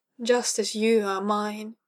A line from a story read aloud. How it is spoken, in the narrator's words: Kara groaned, the alien lust surging up within her again